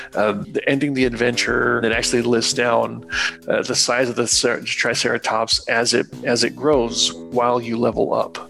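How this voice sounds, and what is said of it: Hoarse, raspy failing voice. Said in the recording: “my voice is actually leaving. I can tell it's already, like, I'm getting very rustic in my voice here.”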